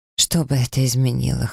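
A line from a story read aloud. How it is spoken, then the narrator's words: Hoarse question. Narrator (Russian): хрипло спросила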